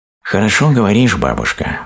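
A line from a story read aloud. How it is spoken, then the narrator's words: Sighed, hare. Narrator (Russian): вздохнул заяц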